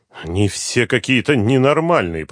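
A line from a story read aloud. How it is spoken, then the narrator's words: Grumbled. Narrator (Russian): проворчал Лукин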